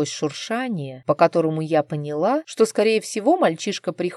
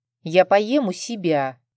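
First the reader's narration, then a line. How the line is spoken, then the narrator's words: Displeased teenage grumble. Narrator (Russian): Недовольно проворчал, судя по всему, их брат-подросток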